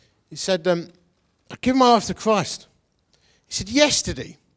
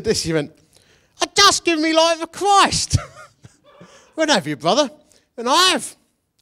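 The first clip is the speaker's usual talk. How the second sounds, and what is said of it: Put-on accent. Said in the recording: “I'm going to drop the accent now. It's doing me head in. I used to sound much worse than that”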